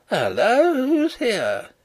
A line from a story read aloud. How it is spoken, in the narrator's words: he cried in startled tones